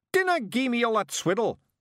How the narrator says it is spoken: shouted Rob, bouncing up and down in rage

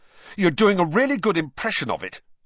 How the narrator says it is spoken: Harry snapped

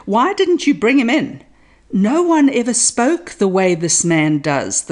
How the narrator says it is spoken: the guards replied

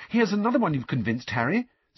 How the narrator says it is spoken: said Hermione excitedly

